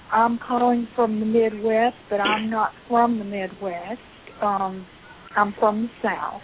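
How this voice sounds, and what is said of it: Tennessee Southern US accent. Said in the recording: “I thought I detected a Tennessee accent.”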